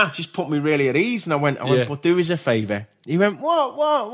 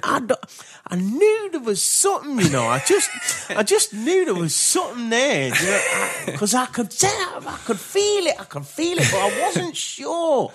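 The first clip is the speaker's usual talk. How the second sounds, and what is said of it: Impression of Shimmy. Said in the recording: “my little shimmy impression”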